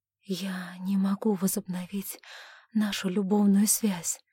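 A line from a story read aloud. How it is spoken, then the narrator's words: Strained, breathless. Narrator (Russian): с трудом выдохнула она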